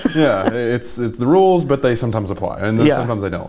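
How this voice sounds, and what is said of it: Mild Southern US accent. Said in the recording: “I know I have a Southern accent, but I don't hear it that much and I don't think it's super prominent ... everybody's like, oh, you're from the South”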